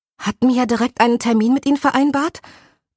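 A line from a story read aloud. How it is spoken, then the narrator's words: Slightly excited question. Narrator (German): fragte und klang ein wenig aufgeregt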